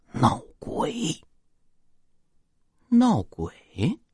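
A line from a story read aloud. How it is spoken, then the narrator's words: Mysterious hushed voice. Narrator (Chinese): 他神秘兮兮的压低声音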